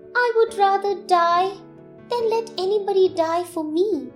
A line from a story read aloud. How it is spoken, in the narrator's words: said the bird sadly